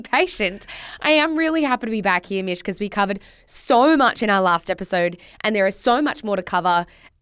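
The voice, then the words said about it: Recovering voice, occasionally breaking. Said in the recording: “I lost my voice ... if I very occasionally go a bit too high or a bit too low ... it's giving puberty where your voice starts breaking ... Sometimes you just go a little silent ... it might break”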